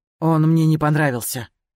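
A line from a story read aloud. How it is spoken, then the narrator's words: Grumbled. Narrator (Russian): буркнул Скай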